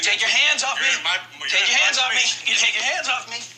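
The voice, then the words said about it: Loud, shouting voice. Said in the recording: “Lower your voice.”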